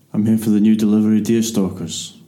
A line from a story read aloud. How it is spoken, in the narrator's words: he said, a voice so deep it almost seemed to rumble